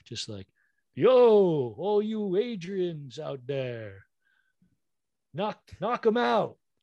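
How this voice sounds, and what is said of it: Imitates Rocky movie character voice. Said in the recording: “the Rocky impersonator ... he just does like the worst and a very good impression.”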